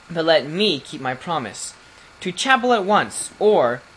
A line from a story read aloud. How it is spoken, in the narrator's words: shouted